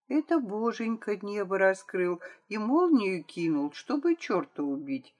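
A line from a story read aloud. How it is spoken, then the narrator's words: Thoughtful. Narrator (Russian): задумчиво сказала Вера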